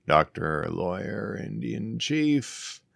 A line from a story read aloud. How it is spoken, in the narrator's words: He murmured